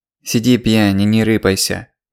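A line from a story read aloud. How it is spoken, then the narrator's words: Nasal voice. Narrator (Russian): прогнусавил голос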